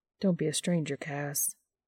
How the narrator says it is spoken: Dean murmurs

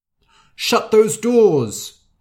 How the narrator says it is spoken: shouted the king

